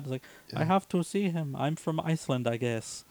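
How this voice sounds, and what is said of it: Stilted character voice. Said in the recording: “I'm doing a voice because this is as good as the voice acting god ... she speaks in real stilted English”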